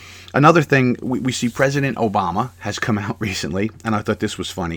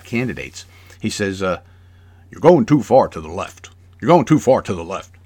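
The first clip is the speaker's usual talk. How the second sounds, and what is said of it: Obama impression. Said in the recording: “I don't know if that's a good Obama impression.”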